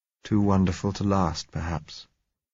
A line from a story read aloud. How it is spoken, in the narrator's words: he said softly